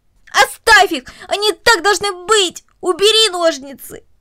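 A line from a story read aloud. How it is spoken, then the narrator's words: Struggling, screaming. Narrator (Russian): Корнелли, отбиваясь от него обеими руками, буквально закричала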